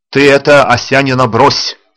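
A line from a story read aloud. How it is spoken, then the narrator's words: Stern sergeant-major. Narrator (Russian): строго сказал старшина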